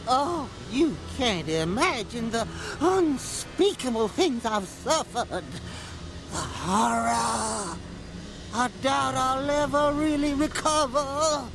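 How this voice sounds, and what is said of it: Exaggerated theatrical character accent. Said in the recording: “sounds like a bad Blanche DuBois from Streetcar Named Desire ... the accent is just horrible, horrible to listen to ... a bad Blanche DuBois impression trying to do Marlon Brando as Colonel Kurtz from Apocalypse Now”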